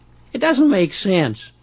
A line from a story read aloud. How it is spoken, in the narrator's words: exclaimed